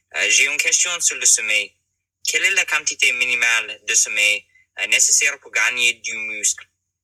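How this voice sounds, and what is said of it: Strong foreign accent in French. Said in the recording (French): “mon accent est toujours très fort ... ton accent, même s'il est présent, on comprend très bien”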